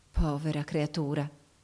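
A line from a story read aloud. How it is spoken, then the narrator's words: Soft voice with sigh. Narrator (Italian): soggiunse poi sottovoce mandando un sospiro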